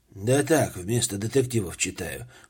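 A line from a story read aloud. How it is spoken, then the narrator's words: Muffled, hollow reply. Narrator (Russian): глухим голосом ответил Обручев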